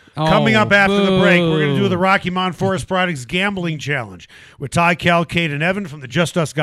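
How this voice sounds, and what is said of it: Usual voice. Nothing is said of it.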